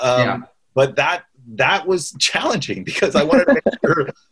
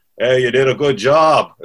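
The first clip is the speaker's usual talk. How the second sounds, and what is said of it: Imitates another person's voice. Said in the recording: “very good Butch impersonation”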